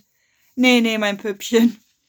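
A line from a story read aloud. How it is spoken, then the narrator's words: Laughing. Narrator (German): er wollte gar nicht aufhören zu lachen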